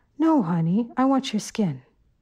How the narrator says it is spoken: the woman had said in a sweet voice

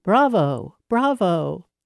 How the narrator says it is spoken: young Madame Chevalier Crochet cried

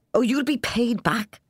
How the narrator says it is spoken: old Ryan said excitedly

